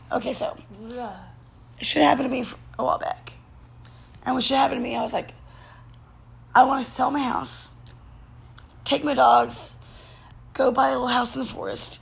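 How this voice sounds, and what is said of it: Voice giving out, strained. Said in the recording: “my voice is going? My voice is going.”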